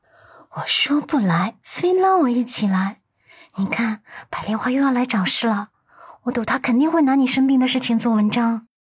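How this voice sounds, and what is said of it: Hushed, quiet voice. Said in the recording (Chinese): “用只有两个人能听见的声音说道”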